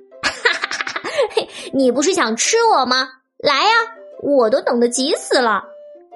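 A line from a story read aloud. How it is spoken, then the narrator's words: Crisp laughter from above. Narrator (Chinese): 屋顶上传来小山羊清脆的笑声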